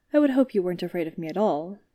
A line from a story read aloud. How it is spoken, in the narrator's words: Obi-Wan said